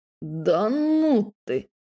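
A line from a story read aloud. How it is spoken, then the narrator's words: Drawn-out, disbelieving. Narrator (Russian): недоверчиво протянул Майк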